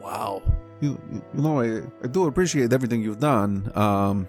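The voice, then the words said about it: Inconsistent put-on character accent. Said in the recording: “My accent's all over the place.”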